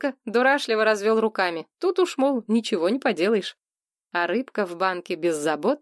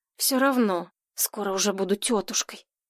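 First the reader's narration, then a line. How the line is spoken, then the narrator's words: Whisper. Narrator (Russian): Это она шепотом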